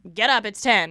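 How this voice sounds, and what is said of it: Imitates another person's voice. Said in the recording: “That's a good impression of her.”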